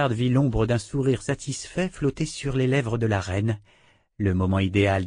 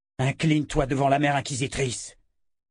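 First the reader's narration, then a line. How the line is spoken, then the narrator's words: Roaring. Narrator (French): rugit-il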